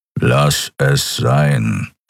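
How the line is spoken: Growled. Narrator (German): knurrte er

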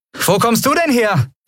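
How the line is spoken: Calling out. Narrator (German): rief Endriel

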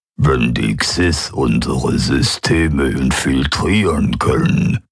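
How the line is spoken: Alien membrane rumble. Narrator (German): brummte der Vertreter der Quoira mit seinen Mundmembranen

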